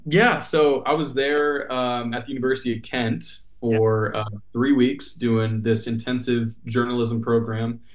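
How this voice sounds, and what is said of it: American accent. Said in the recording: “that's just my American accent”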